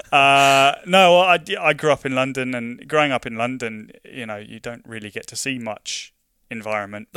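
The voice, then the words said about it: London English accent. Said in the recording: “as you might detect from my accent, I'm not Scottish. I'm from London.”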